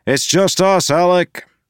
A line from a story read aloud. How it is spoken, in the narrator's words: Wax called out